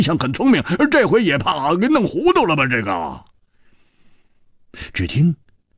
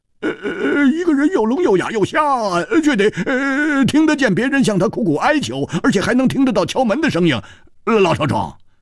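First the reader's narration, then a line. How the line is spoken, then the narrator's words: Anxious, wry mutter. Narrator (Chinese): 胡铁花急得 他苦笑着喃喃地说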